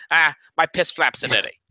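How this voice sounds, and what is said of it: Impression of another person's voice. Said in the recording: “I'm going to go full Danny ... that's my Danny impression.”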